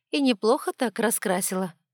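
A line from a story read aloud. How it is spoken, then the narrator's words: Snort under breath. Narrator (Russian): хмыкнула себе под нос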